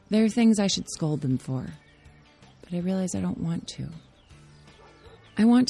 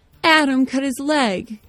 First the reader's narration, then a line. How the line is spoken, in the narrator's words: she cries out